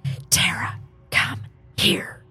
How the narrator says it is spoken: said in a whispery voice, but demanding voice

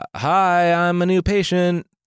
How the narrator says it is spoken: the tailor yelled up through the door

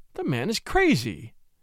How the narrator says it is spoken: exclaimed Mrs

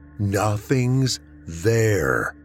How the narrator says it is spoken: he said slowly to emphasize her insanity

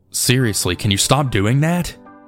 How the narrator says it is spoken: said, not laughing this time

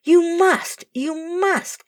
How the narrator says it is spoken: cried Charlie and Kenneth

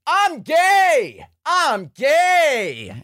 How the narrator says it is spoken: Too Mad goes outside on my street and just starts yelling

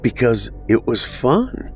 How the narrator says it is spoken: she said

